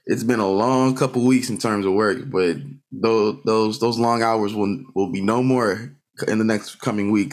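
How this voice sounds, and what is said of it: Tired-sounding voice. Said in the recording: “I'm tired ... y'all probably can hear it in my voice. I am exhausted.”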